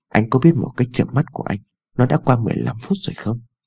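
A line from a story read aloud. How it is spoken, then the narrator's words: Soft sulky tone. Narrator (Vietnamese): Ái Dương khẽ dỗi hờn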